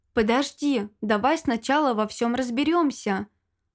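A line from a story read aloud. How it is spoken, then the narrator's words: Calm remark. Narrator (Russian): спокойно заметил Вильям II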